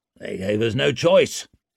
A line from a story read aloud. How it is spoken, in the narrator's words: grumbled Ruckstead